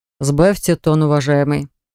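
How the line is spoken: Deceptively calm tone. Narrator (Russian): обратился обманчиво спокойным тоном

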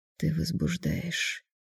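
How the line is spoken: Breathed out. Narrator (Russian): выдохнул он

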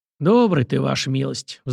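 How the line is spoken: Sighing. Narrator (Russian): вздохнул Захар

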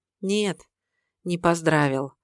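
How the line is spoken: Sad. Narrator (Russian): грустно ответила Наташа

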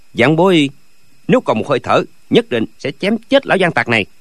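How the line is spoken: Furious loud. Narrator (Vietnamese): Lâm Bình Chi vừa nghe đến cái tên Dư Thương Hải, máu trong ngực như muốn sôi lên, lớn tiếng hỏi

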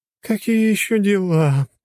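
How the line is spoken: Lazy moan. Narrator (Russian): простонала самая ленивая

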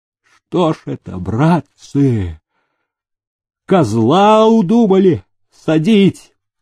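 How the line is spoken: Alarmed hoarse rasp. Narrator (Russian): встревоженно прохрипел мастерко

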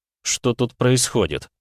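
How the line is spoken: Stunned asking voice. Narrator (Russian): охреневшим голосом спросил я

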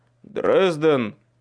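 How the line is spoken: Call through a door. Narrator (Russian): окрикнул меня Майкл из-за двери

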